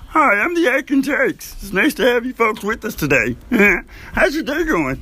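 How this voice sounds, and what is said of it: Put-on silly character voice. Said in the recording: “This isn't really how my voice sounds. I just like to have a little fun, you know? This is my impression of I don't even know.”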